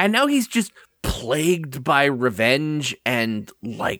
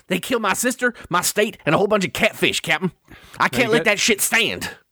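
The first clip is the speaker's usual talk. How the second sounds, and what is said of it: Imitates a character's accent. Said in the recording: “do the voice ... You got the accent now, but you gotta make him gravelly”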